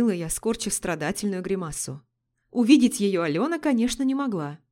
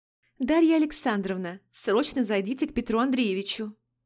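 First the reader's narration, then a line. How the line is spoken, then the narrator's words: Pleasant purr over phone. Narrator (Russian): Промурлыкал в трубку приятный голос секретаря генерального, Алены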